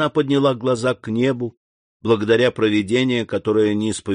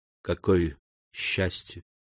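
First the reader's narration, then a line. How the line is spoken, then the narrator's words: Whispered. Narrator (Russian): прошептала она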